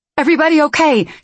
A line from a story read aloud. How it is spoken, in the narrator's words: she shouted